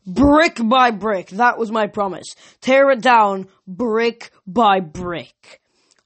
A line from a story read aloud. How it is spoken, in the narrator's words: Somewhere ahead of us, voice roared